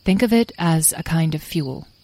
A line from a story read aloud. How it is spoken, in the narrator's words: said Beatrice